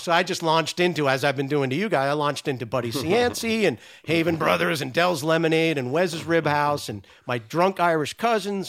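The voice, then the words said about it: Rhode Island accent. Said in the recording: “my Rhode Island accent”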